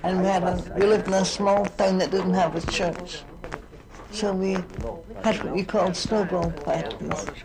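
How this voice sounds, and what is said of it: Scottish accent. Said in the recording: “I come from Scotland, as you'll know from my accent.”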